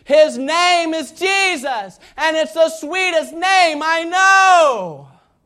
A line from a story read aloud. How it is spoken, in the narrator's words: forgetting everyone around him, he yelled out at the top of his lungs